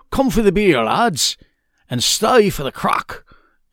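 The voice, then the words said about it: Poor put-on Irish accent. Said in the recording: “let me try that in my Irish accent. ... That's pretty bad.”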